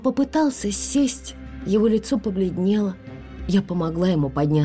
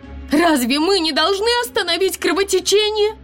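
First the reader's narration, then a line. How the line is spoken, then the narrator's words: Loud shout. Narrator (Russian): Громко закричала я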